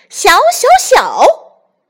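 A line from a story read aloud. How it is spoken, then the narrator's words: Excited repeated shouting. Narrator (Chinese): 孙悟空兴奋极了，连喊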